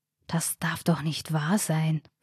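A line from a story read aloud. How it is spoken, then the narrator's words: Whisper. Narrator (German): flüsterte Ronny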